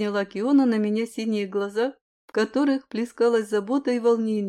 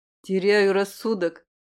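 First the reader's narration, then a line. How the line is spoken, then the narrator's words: Annoyed snort. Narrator (Russian): хмыкнул я с какой-то досадой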